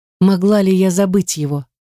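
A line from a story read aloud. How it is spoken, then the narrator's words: Sighed. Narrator (Russian): вздохнула Эмилия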